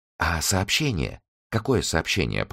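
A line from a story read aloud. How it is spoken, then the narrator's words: Whisper. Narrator (Russian): прошептала Би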